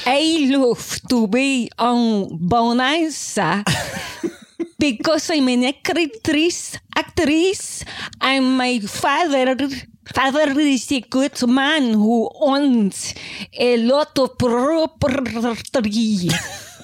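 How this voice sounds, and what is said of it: Fake Spanish accent. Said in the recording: “Well, you're from Spain... this is a Spanish accent”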